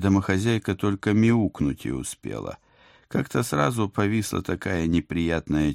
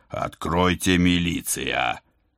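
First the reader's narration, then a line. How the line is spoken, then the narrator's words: Growling. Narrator (Russian): зарычал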